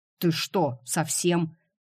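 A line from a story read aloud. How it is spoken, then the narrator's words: Hissing. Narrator (Russian): Каспиан зашипел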